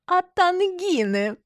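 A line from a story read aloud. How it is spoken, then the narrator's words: Joyful exclamation, choking laughter. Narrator (Russian): радостно восклицает и давится смехом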